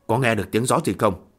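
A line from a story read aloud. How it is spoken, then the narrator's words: Furtive, hushed. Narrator (Vietnamese): Từ Đường Nhân lấm lét nhỏ giọng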